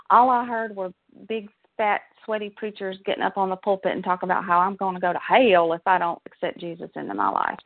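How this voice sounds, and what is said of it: Southern American accent. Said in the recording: “I'm a Southern girl, as you can probably tell from my accent.”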